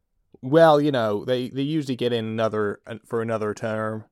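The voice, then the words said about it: Put-on American accent. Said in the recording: “I'm going to do an American accent.”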